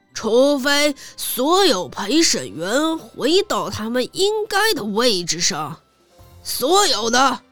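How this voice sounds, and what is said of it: Very stern, heavily stressed voice. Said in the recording (Chinese): “国王用非常严肃的声音说道...他狠狠地加重语气”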